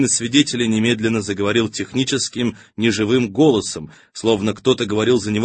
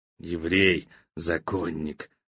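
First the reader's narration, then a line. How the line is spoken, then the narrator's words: Wheezing. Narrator (Russian): просипел физрук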